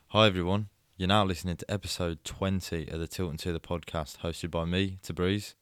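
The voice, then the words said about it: Husky, hoarse voice. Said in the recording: “hear the husk in your voice”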